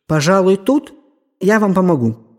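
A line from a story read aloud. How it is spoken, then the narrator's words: Plain. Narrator (Russian): сказал Каппер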